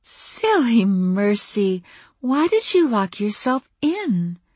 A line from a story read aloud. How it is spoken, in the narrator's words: Her voice was as light as her smile